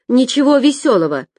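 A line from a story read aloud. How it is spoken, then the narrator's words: Barked snap. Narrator (Russian): рявкнула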